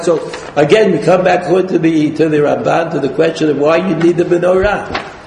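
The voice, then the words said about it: Speaking very fast. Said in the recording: “I'm talking too fast, but I can't help it.”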